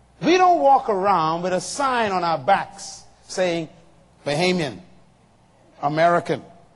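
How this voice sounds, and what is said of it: Noticeable non-local accent. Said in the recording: “you have an accent... my accent gave me away... you must not be from here”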